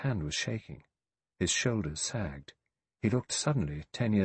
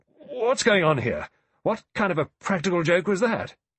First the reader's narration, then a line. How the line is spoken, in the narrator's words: General MacArthur spluttered out